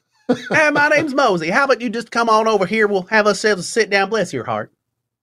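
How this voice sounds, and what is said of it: Exaggerated Southern American accent. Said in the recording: “that accent ... down home, Southern Jedi”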